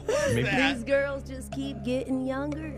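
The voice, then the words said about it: Imitates another person's voice. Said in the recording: “This impersonation is for Alexis.”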